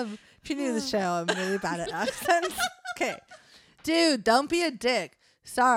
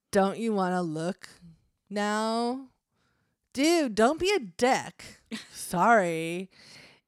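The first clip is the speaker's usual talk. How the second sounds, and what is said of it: Put-on Valley Girl accent. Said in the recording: “I'm just leaning into the accent now ... he sounds like Valley Devil ... His accent changed. It was different.”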